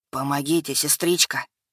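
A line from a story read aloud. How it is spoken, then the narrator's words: Faint rustling muffled whisper. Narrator (Russian): Едва слышно прошелестел голос из-под капюшона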